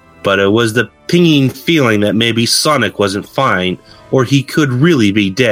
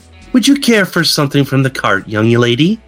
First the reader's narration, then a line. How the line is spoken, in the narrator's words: She said sweetly